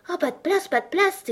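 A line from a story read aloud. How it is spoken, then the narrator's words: Group exclaiming. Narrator (French): s'écrièrent-ils en voyant Alice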